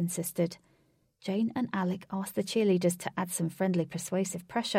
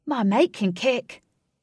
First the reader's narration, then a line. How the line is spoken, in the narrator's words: Alec shouted for everyone to hear